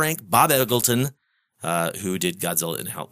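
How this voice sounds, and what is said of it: Usual voice. Nothing is said of it.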